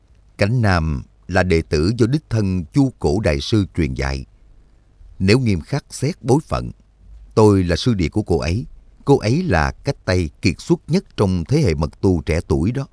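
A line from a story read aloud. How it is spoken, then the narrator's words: Sighing. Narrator (Vietnamese): Lạc Ma A La ngước mặt lên thở dài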